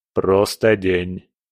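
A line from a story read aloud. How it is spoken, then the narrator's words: Even-voiced interruption. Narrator (Russian): ровным голосом прервал ее Абадон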